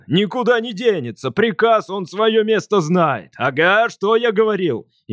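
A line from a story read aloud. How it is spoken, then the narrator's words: Louder shouting. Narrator (Russian): Еще громче закричал он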